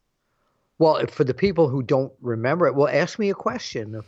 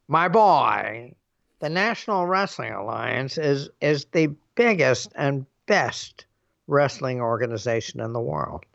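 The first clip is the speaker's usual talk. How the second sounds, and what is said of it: Jim Barnett impression. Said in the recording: “I do a Jim Barnett impression”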